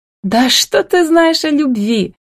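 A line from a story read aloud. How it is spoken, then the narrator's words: Exasperated shout. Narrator (Russian): не выдержав, закричала Милка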